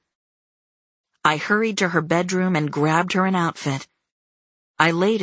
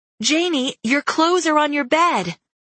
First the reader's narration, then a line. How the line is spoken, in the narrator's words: I yelled above Cole's cries